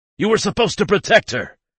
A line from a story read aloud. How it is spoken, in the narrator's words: I yell in his face